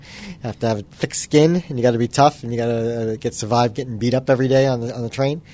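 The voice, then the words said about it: New York accent. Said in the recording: “I've been a New Yorker, as you can tell from the accent”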